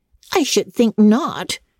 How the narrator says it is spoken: exclaimed Anna indignantly

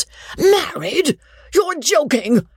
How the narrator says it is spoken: the baronet cried in rage and wonder

